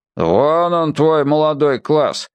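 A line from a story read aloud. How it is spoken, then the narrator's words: Grumbling. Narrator (Russian): проворчал бородатый слесарь Василий Ефимович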